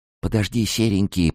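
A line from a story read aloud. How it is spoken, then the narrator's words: Whisper. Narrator (Russian): прошептала я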